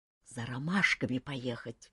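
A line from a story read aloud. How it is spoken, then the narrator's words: Quiet explanation. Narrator (Russian): негромко объяснил Кантор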